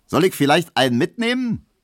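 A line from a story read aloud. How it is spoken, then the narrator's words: Cheerful hearse driver calling. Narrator (German): rief der fröhliche Leichenkutscher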